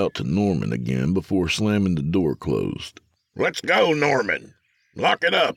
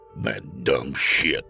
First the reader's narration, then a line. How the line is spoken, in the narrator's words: Logan grumbled under his breath